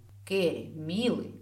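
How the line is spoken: Suspiciously sweet call. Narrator (Russian): подозрительно ласково позвала невеста

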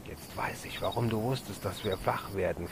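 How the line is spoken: Whispering. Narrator (German): flüsterte Karl

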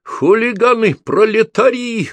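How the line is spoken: Woman shouting. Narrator (Russian): время от времени кричала она

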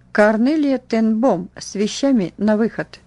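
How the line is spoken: Stern metallic female voice. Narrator (Russian): грозная надзирательница металлическим голосом произнесла

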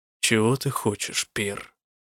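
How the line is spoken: Quiet question. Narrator (Russian): негромко спросил он

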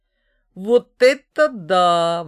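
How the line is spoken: Exclaiming. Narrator (Russian): воскликнул Микиш

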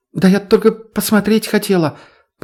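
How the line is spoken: Frightened excuse. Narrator (Russian): попыталась испуганно оправдаться та

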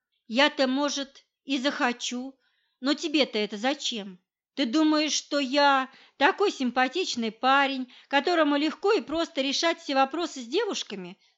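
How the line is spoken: Plain question. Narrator (Russian): спросил он

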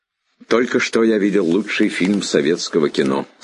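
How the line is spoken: Plain. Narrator (Russian): сказал он

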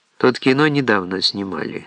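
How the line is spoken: Calm, unsurprised. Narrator (Russian): спокойно и не удивляясь

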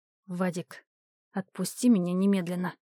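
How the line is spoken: Said through gritted teeth. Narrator (Russian): процедила

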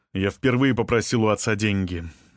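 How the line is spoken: Bitter scoff. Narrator (Russian): горько хмыкнул Расмус

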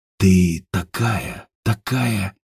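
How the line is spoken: Whisper. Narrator (Russian): прошептал Степан

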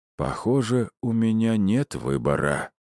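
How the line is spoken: Slightly sad. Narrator (Russian): немного грустно произнес он

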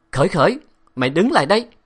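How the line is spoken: Angry shout. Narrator (Vietnamese): tiếng quát giận dữ của giáo sư La Nghị

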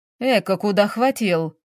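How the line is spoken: Grumbling. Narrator (Russian): проворчал следователь

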